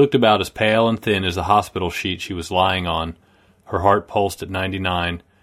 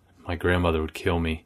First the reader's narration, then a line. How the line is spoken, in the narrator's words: whispered